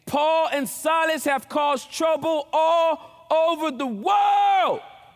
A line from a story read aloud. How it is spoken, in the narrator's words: they shouted